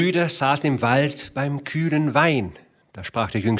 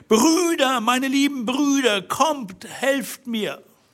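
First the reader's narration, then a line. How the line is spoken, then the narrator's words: Shouting at full voice. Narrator (German): rief so laut sie konnte zum Fenster hinaus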